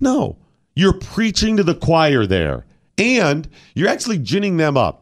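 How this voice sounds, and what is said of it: Usual voice. Nothing is said of it.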